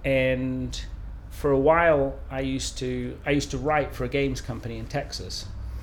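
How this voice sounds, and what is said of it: Mid-Atlantic, American-sounding accent. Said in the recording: “my accent is very mid-Atlantic, it's very, you know, it sounds very American”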